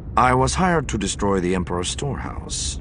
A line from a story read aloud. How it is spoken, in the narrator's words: the smuggler said evenly